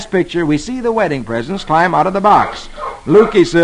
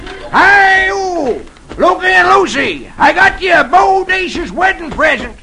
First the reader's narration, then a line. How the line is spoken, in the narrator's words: he shouts